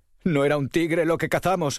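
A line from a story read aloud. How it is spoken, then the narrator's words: Sobbing. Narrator (Spanish): sollozaban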